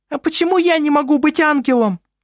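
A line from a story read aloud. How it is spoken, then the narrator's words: Shrill squeaky question. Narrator (Russian): спросила Селестина своим визгливым голосом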